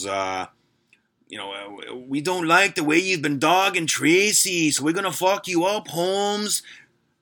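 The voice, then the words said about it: Bad put-on Latino gangster accent. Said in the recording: “this just absolute terrible Latino gangster accent. Kind of like the dudes from Cypress Hill.”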